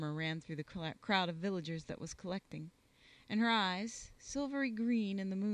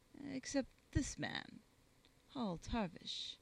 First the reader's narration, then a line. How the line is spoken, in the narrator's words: she added coldly